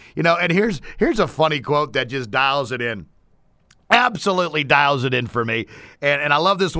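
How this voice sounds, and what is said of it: Usual voice. Nothing is said of it.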